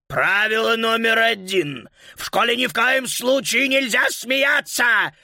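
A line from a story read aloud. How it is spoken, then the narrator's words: Incredulous shout. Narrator (Russian): выкрикнул господин Шнитлих, не веря своим глазам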